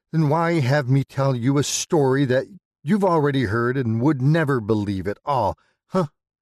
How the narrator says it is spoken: Daniel chuckles

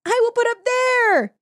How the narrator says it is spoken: he cried

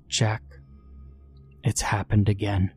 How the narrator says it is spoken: she said quietly, her throat tight

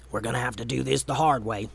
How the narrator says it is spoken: Momo was close enough to Gray to whisper

